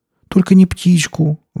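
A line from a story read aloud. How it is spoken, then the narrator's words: Pleading. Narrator (Russian): взмолилась Настя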